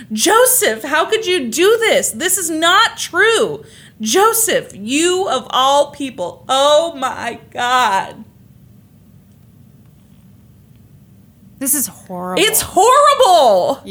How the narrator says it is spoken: Alice Crimmins screamed

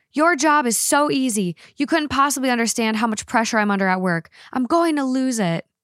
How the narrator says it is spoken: she screamed back

